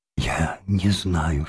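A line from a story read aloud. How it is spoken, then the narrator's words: Embarrassed whisper. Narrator (Russian): шептала, еще более смущенная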